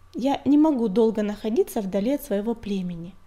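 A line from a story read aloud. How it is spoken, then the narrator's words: Calm explanation, star. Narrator (Russian): спокойно объяснила синяя звезда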